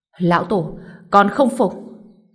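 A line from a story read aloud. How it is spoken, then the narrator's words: Roaring. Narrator (Vietnamese): Tiêu Biệt Ly gầm lên nói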